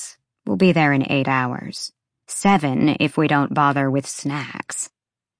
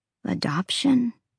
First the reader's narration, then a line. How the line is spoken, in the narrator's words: Emil croaked